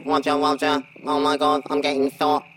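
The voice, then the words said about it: Robotic battle droid character voice. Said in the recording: “put on a battle droid voice,”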